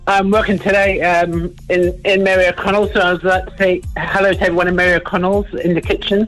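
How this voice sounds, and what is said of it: English accent, south London. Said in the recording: “Where's that accent from?... I'm from England... I'm from a place south London.”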